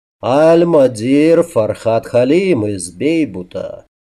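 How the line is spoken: Husky voice, lilting accent. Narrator (Russian): за хрипотцой легкий переливчатый акцент говорившего

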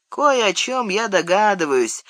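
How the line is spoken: Grim pronouncement. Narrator (Russian): мрачно изрек Сэм

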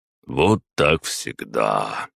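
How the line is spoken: Sighing. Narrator (Russian): вздохнул маг

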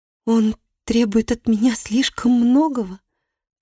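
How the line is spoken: Moan. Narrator (Russian): простонала

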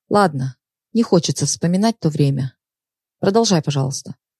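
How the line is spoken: Sigh, then speaking. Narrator (Russian): Даша вздохнула, а потом сказала

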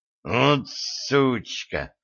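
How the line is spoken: Hiss, broken nose. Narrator (Russian): прошипел атлет со сломанным носом

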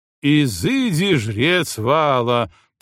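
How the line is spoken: Thundering. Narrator (Russian): прогремел он

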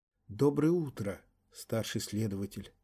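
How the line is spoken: Weak whisper. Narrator (Russian): слабым голосом прошептала Раяна Мнишек

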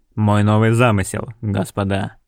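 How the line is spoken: Grumbled. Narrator (Russian): буркнул

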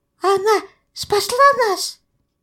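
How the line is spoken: Stunned babbling. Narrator (Russian): Не веря самому себе, пролепетал Тонкий

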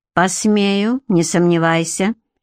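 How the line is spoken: Icy, curt. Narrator (Russian): ледяным тоном бросил Гарик

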